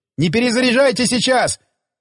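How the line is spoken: Yelling. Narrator (Russian): заорал охранявший группу пулеметчик

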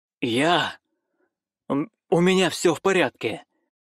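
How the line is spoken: Hoarse wheeze. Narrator (Russian): просипел

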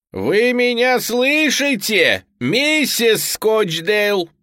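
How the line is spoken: Shouted. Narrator (Russian): прокричал я

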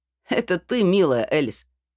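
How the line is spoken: Wry snort. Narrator (Russian): хмыкнул парень рядом с ней

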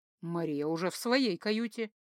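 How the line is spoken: Calm. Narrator (Russian): спокойно сообщила Ирдан

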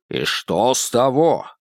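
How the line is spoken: Angry. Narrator (Russian): Хэй говорил сердито

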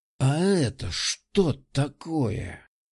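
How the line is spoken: Hissed close to ear. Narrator (Russian): прошипел Виктор у самого уха

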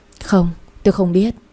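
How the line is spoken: Sighing reply. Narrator (Vietnamese): tôi thở dài đáp

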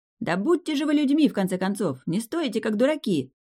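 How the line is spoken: Shouted. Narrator (Russian): кто-то крикнул

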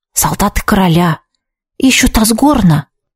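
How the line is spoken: Whispered. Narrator (Russian): шепнул Витсар

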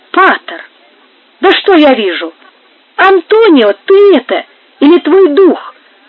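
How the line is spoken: Surprised exclamation. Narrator (Russian): воскликнул Жиль, увидев его ближе

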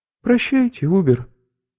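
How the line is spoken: High angelic voice. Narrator (Russian): сказал Ланца своим высоким, ангельским голосом

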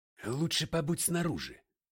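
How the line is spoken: Whisper. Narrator (Russian): шепнул я констеблю

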